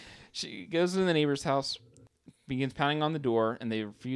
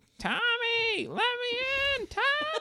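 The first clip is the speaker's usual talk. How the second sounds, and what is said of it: Shouted imitation of a character's voice. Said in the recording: “That's spot on impersonation. ... She's just nailing it.”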